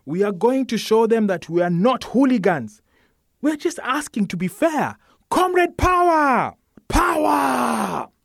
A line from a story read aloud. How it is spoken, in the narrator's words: Everybody, including Moses, shouts back